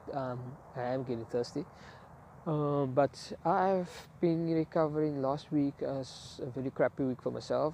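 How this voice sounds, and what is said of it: Slightly changed, sick-sounding voice. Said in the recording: “my voice has changed a little bit ... I have been sick ... I normally get the sinus flu and the cold”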